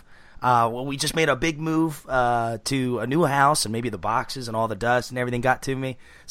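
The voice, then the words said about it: Unwell-sounding, affected voice. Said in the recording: “I'm so sorry for my voice. I've had allergies for the last week and a half ... I do apologize for my voice”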